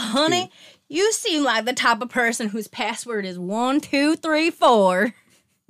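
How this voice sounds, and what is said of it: Redneck accent. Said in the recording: “Oh, like the accent? ... Redneck.”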